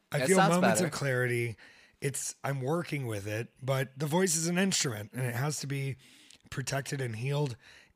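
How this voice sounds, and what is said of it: Strained, partly lost voice. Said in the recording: “My voice is, I'm working through it... I constantly lose my voice”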